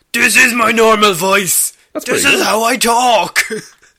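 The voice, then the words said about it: Imitates a movie character's voice. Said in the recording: “That's pretty good Star-Lord impersonating Thor.”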